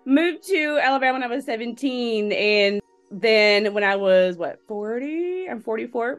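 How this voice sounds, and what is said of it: Mixed regional American accent. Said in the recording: “I'm from Illinois, Texas, and Alabama, really. You can kind of hear all the accents going on.”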